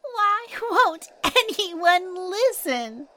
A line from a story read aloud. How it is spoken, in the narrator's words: Little Zoya cried